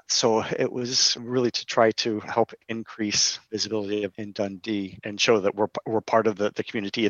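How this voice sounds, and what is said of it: Non-local accent. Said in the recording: “As you can tell, I'm not from Dundee by my accent”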